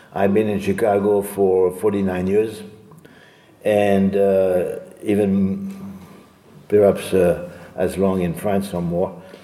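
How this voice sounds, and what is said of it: Strange non-native accent. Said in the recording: “I still have this strange accent”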